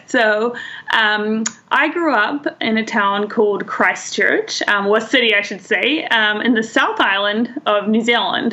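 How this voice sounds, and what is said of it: New Zealand accent. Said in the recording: “you're obviously not from here ... Let's address the accent first. ... I love the accent.”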